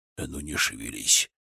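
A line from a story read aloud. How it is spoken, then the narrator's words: Whispered. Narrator (Russian): прошептал дядька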